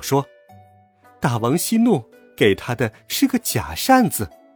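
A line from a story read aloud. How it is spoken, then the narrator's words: Laughing. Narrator (Chinese): 铁扇公主笑道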